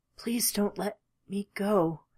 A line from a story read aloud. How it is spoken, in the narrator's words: he whispered